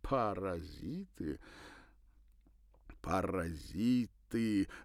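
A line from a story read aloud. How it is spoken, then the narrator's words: Laughing. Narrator (Russian): рассмеявшись, продолжил Николя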